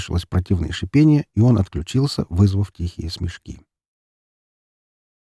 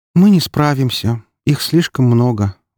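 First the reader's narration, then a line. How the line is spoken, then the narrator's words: Sigh. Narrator (Russian): вздохнула Валькирия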